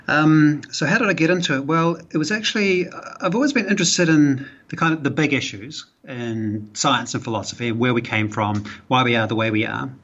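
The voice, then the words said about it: New Zealand accent. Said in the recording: “I'm originally a Kiwi ... I'm from New Zealand originally. That's where my accent's from, if you're trying to place the accent.”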